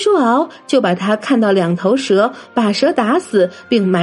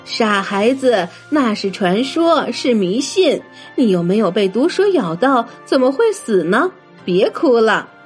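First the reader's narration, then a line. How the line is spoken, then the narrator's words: Smiling. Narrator (Chinese): 妈妈笑了笑说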